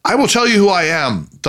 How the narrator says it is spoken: thundered Harry in his deep patrician voice

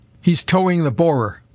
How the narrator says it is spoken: cried the doctor in exultation

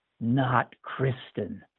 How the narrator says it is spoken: it whispered

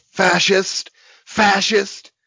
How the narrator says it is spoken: they yelled

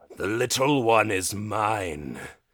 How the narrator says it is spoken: the dragonborn growls

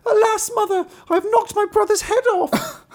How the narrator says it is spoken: Marlinkin was terrified and began crying and screaming and said

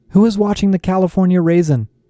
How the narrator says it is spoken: I shouted

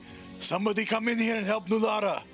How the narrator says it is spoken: Mukta yelling

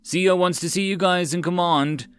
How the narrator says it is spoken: a marine called out

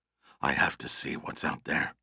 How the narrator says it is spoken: Russ whispered

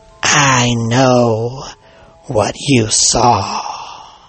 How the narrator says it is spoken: a woman's raspy voice hissing

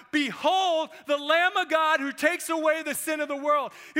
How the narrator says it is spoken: He shouted out

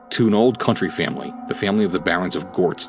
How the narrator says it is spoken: said Master Colts

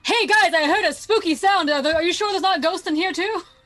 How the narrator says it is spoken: I yell

